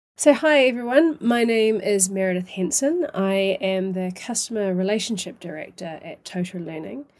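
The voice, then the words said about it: New Zealand accent. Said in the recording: “my accent originates from New Zealand”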